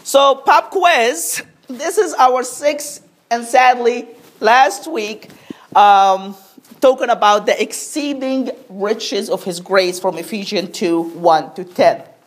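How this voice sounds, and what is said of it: Congested voice from a cold. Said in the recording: “I have a little bit of a cold,”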